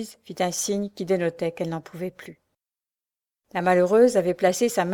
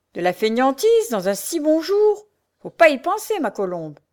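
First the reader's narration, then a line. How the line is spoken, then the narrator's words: Harsh, curt tone. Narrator (French): durement, de ce ton bref qui faisait tressaillir d'effroi l'infortunée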